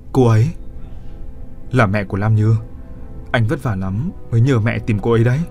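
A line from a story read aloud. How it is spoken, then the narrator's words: Soft murmured question. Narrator (Vietnamese): Cô thủ thỉ hỏi hắn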